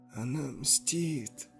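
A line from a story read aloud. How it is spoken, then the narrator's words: Trembling drawn-out girl's voice. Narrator (Russian): протянула дрожащим голосом девушка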